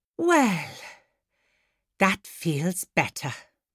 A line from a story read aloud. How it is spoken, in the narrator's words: sighed Miss Epoch